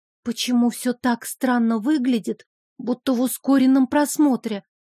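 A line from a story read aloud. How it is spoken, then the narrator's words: Whispered question. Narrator (Russian): спросила шепотом, будто меня могли услышать те, кто находится в подземелье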